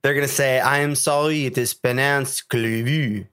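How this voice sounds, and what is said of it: Put-on French accent. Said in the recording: “That was awesome. And kind of racist ... French accent”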